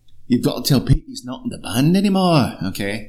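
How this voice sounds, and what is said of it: Put-on Northern English accent. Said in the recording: “That's my North England is spot motherfucking on. ... I'm sorry, North England.”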